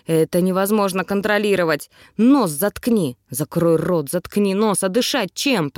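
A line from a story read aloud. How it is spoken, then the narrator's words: Grumbled. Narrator (Russian): проворчал он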